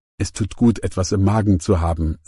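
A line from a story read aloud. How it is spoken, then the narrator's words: Plain. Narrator (German): sagte sie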